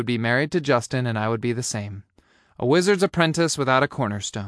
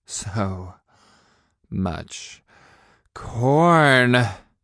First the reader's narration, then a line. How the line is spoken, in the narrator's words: I breathed